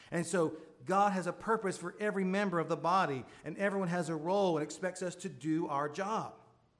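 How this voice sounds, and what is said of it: Southern US accent. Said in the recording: “I'm from the state of Florida. If you can't tell I have a southern accent”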